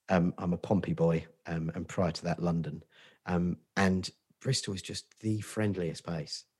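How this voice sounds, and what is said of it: Portsmouth English accent. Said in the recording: “I'm not from Bristol, as you can probably tell by my accent.”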